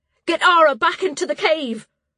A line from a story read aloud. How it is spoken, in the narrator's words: she shouted